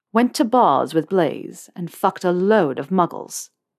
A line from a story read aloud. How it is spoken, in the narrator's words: Malfoy said in his haughtiest tones